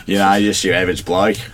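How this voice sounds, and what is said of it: Convincing put-on Australian accent. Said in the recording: “from Canada just doing an Australian accent really well”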